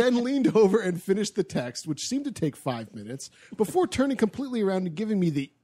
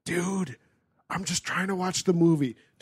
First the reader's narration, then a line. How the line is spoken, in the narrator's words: Trying not to make a scene and disturb everyone else, I whispered back